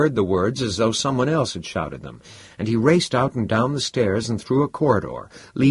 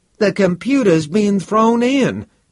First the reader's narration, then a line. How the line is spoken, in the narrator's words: It was Anthony's voice that cried out at last